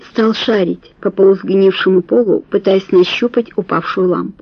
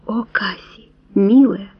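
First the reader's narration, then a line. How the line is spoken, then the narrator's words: Whispered. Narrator (Russian): прошептал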